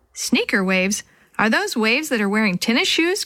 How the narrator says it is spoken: Chris asked with a laugh

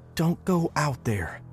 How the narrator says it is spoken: she whispered right in my face

